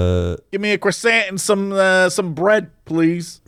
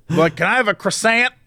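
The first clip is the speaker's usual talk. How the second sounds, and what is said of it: Exaggerated American accent. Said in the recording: “with that very American accent”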